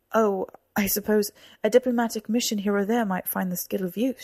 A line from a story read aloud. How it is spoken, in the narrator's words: she said